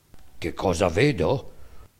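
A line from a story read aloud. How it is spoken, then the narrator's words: Donkey, low voice. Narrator (Italian): rispose a bassa voce il ciuco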